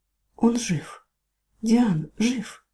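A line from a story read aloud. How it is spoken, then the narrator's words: Drowsy whisper. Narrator (Russian): прошептала прежде, чем снова нырнуть в тяжелые трясины сна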